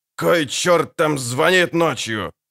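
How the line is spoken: Barked. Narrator (Russian): рявкнул

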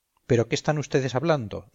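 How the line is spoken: Plain. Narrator (Spanish): dijo Lesbia

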